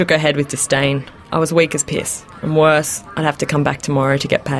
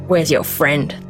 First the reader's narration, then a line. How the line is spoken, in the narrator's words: spat